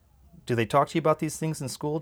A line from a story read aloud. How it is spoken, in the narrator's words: Dad asked